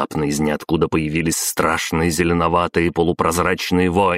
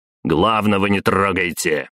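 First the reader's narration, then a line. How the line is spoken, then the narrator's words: Barking shout. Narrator (Russian): рявкнул Белозеров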